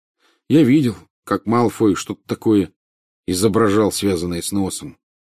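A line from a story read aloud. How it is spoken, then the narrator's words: Gloomy. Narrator (Russian): произнес он мрачно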